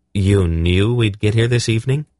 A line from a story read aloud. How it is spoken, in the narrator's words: Geryon asked